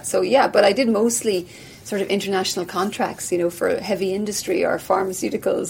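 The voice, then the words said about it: Irish accent. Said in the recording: “you've got this accent. You're Irish.”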